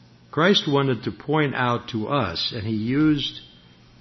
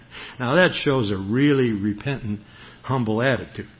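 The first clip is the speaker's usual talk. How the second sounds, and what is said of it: Sarcastic tone. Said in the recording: “I'm being sarcastic.”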